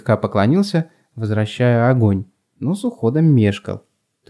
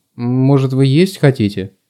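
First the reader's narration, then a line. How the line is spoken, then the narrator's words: Uncertain question. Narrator (Russian): неуверенно спросил Азик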